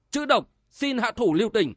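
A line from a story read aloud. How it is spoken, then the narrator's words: Crying out. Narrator (Vietnamese): Bộc Dương Duy kêu lên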